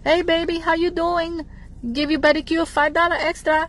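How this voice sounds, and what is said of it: Put-on foreign accent. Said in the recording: “I'm just making an accent.”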